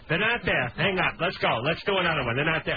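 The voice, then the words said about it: Imitates another person's voice. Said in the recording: “I'll give you the Pat Cooper impersonation”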